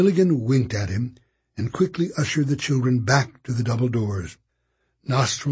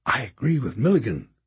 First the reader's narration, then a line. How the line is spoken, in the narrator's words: whispered